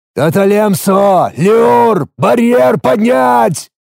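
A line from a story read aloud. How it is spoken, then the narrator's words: Loud command over the din. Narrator (Russian): Максимально громко в общем гвалте криков скомандовал я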